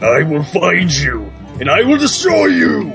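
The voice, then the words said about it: Scary menacing voice. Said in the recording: “you gotta do a scary voice, too”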